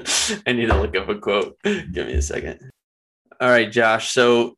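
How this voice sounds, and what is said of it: Usual voice. Nothing is said of it.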